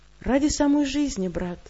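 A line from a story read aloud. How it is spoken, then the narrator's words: Sad smile. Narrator (Russian): печально улыбаюсь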